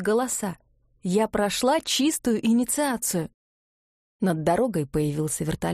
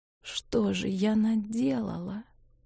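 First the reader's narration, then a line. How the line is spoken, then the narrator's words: Whisper. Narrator (Russian): прошептала Ивга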